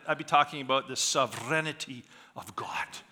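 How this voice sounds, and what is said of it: Scottish accent. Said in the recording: “a Scotsman. I was born and raised in Scotland ... if I had kept my accent”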